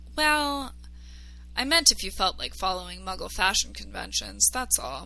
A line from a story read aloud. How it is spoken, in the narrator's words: Harry sighed, not sure how to answer, and then simply said